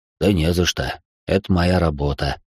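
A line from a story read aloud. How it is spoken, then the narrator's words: Calm reply. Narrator (Russian): спокойно ответил Иван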